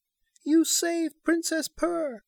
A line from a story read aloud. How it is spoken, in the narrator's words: cried Queen Jane